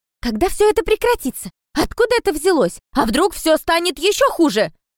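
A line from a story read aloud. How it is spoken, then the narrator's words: Reporters shouting over each other. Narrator (Russian): Наперебой кричали репортеры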